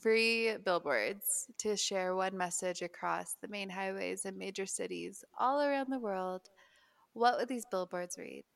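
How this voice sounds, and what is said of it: Utah accent. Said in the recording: “It's in my Utah accent.”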